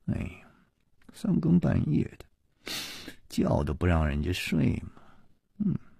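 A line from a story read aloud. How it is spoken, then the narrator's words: Mumbling. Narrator (Chinese): 喃喃地嘀咕着说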